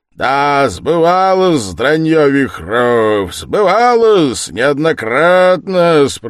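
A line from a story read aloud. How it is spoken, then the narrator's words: Roaring. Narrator (Russian): проревел опять Провянский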